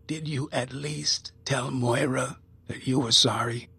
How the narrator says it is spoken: She asked quietly

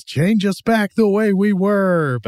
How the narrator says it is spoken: John Agar yells

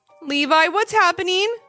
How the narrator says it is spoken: called out Ivy

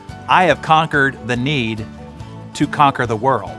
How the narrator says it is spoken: The wise man responded confidently and flatly

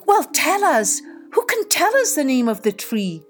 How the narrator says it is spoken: cried the animals

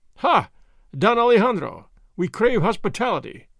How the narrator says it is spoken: the foremost cried

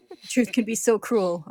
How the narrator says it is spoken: Armstrong sobs

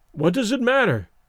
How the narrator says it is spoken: he exclaimed desperately

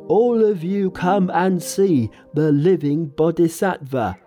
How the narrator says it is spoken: Pigsy and Sandy ran back to the farm and shouted

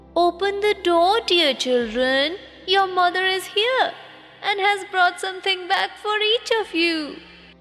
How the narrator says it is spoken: cried

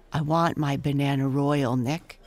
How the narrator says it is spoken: cried Belle

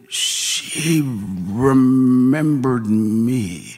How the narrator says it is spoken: slurred

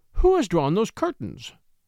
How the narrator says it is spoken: she exclaimed

